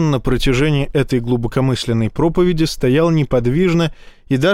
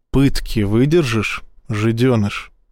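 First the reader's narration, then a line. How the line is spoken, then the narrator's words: Almost tender. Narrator (Russian): спросил он почти ласково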